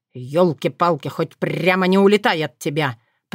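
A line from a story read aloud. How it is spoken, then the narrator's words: Grumbling. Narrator (Russian): проворчал Вран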